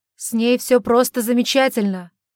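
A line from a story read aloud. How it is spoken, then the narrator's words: Shouted reply. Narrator (Russian): прокричал в ответ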